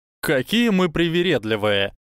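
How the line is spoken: Scoffing snort. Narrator (Russian): фыркнул гриффиндорец

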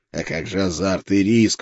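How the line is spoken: Hoarse rasp. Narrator (Russian): прохрипел я

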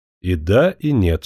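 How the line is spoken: Plain. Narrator (Russian): сказал Сикорский

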